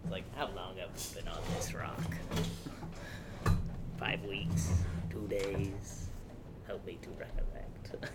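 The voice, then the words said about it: Imitates another person's voice. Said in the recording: “Willem Dafoe ... my impression ... It was spot on.”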